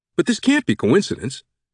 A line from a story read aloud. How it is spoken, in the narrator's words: the kid exclaimed